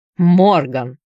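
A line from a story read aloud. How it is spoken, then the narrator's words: Angry bark. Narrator (Russian): зло рявкнул матрос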